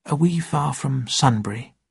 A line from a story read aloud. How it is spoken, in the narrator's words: said very quietly